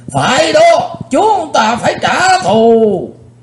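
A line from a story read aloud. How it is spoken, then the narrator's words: Crowd shouting together. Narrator (Vietnamese): Hai mươi mấy tên cao thủ trong Hắc Bạch Lưỡng Đạo đồng hét vang lên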